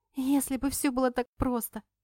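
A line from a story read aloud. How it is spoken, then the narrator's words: Snorting retort. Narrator (Russian): фыркнула в ответ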